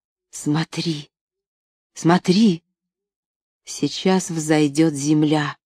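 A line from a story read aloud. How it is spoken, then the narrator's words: Whisper. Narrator (Russian): Анна ... прошептала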